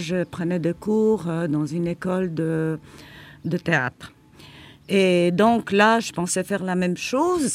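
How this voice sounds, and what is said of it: Mild foreign accent in French. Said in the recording (French): “j'ai toujours un accent. Mais à ce moment-là, mon accent, il était vraiment beaucoup, beaucoup plus prononcé”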